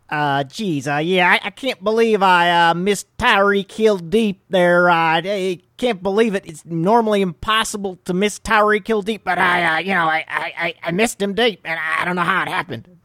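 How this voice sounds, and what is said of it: Imitates another person's voice. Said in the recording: “my Patrick Mahomes impression”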